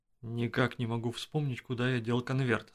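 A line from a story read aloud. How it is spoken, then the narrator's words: Plain. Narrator (Russian): сказал он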